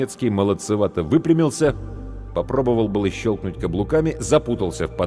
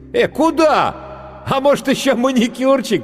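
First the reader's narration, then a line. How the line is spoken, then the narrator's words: Mocking shout, laughing. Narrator (Russian): крикнул гример и расхохотался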